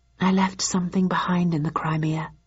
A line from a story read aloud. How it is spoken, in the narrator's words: I murmured